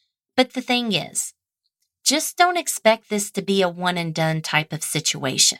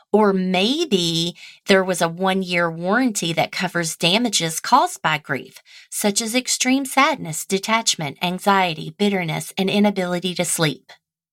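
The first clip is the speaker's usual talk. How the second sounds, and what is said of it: Infomercial announcer voice. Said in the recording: “my best infomercial impersonation.”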